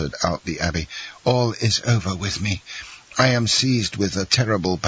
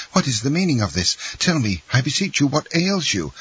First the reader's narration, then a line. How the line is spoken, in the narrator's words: cried Dantès